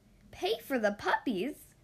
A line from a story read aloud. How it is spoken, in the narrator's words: gasped Anita